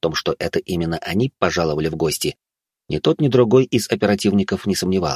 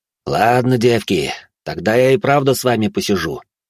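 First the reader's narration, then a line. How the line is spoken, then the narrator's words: Cheerful growl. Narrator (Russian): весело рыкнул Баженов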